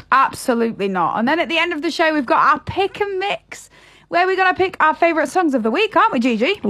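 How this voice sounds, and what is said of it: Yorkshire accent. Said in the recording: “Yorkshire. It's where I was born and bred, you know. I hope I never lose my accent.”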